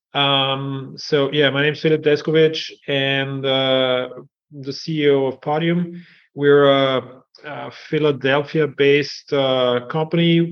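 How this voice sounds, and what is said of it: European accent. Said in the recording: “as you can hear from my accent, maybe I'm from Europe”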